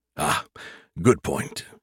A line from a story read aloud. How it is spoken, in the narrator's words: he grunted